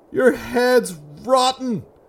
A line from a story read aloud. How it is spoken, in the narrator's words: Martin screamed, his anger overrode the pain in his leg